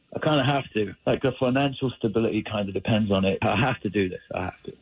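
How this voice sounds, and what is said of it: British accent. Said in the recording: “you have a British accent.”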